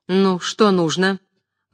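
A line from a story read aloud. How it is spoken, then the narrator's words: Rude interruption. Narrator (Russian): грубо перебила горничная прачку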